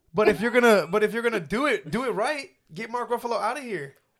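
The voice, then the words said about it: Yelling, loud agitated voice. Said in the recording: “you're yelling?”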